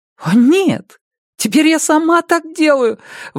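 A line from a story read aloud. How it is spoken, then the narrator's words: Desperate exclamation. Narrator (Russian): в отчаянии воскликнула Робин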